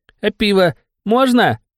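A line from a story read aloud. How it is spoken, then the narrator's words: Babbled through gap-toothed grin. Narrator (Russian): Щерясь щербатыми зубами, пролепетал он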